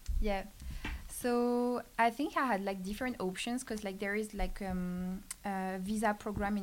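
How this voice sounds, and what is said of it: French accent. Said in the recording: “your French accent. She is from France, not Quebec, France.”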